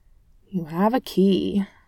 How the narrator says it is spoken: Clint grumbled

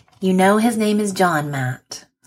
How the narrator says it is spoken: chides, and then sighs

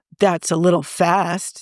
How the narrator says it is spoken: Steve said, laughing

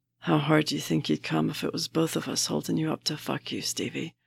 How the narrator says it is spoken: Barnes says, in a low voice

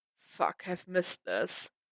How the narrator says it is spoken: Matt muttered, a little hesitant

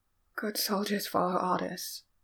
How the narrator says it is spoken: said the dying man, words slurred but no less frantic

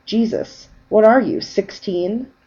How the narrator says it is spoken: Ray sighed

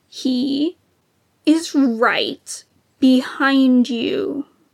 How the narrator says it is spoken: Sidious said through gritted teeth

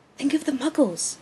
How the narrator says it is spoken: Remus hisses

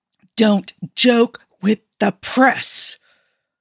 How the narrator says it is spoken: Colin hissed

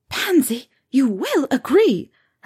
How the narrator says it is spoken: her mother gasped

